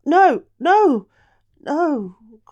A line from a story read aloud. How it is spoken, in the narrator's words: cried the queen